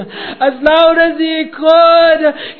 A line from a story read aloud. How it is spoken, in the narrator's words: he called out